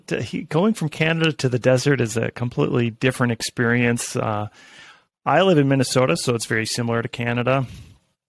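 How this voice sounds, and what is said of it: Upper Midwest / Canadian-sounding accent. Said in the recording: “I get accused all the time of having a Canadian accent ... Minnesota accent”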